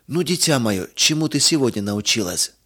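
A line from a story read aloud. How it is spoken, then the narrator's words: Plain. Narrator (Russian): спросил отец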